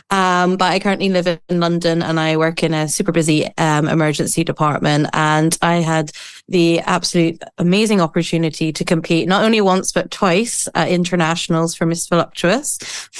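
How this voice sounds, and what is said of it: Northern Irish accent. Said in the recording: “If you haven't guessed from the accent, I am not American, but I'm originally from Northern Ireland”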